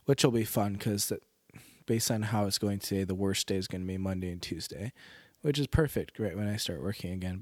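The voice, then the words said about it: Congested, deeper voice. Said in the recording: “the congestion is coming ... my nasal passages are getting a little bit more swollen and my voice is getting a little bit deeper.”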